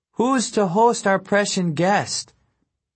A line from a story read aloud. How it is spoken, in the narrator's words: Abbas had to shout her next question over the rowdy